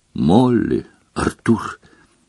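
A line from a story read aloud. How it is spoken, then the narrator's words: Exclaimed. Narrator (Russian): воскликнула профессор МакГонагал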